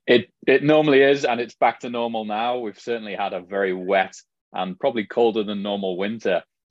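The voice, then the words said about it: Mild Liverpool English accent. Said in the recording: “I can certainly hear the accent ... As you can tell from my accent, not from San Diego ... originally from Liverpool, England ... my accent is definitely not a hardcore Scouse accent”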